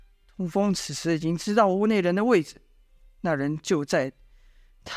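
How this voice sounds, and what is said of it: Usual voice. Nothing is said of it.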